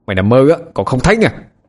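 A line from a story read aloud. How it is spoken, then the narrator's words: Shouting. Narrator (Vietnamese): Tôi quát lên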